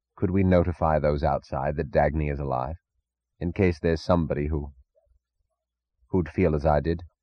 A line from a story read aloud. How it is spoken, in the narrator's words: his voice sounded peculiarly solemn